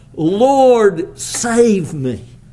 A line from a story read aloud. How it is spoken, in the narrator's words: Peter cried out